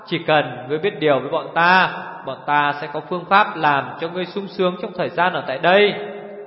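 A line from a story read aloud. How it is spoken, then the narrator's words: Sly chuckling. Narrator (Vietnamese): Nàng áo xanh bật cười hắc hắc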